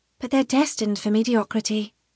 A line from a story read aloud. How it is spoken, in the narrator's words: Tana says with a sigh